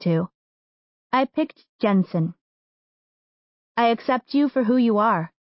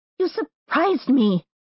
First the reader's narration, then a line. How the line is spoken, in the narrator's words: I yelped